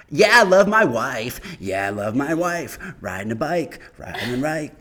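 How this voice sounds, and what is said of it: Imitates another person's voice. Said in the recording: “impersonations of rappers ... Can I do an impersonation of Chance the Rapper?”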